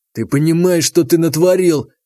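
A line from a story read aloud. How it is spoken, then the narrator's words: Furious hoarse wheeze. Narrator (Russian): в ярости хрипел Демид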